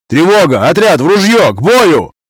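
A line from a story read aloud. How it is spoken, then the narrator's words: Groggy alarmed yell. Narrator (Russian): Заорал я, едва только разобрал с просонья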